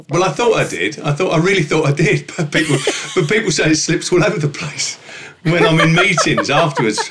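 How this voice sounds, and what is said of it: Regional British accent. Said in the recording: “you've still got your accent”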